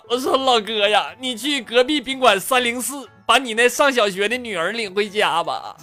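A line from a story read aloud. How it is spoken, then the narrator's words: Crying, at breaking point. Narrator (Chinese): 我实在我忍不了了，哭道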